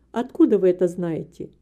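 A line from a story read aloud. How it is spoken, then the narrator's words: Calm reply. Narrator (Russian): Мистер Мори спокойно ответил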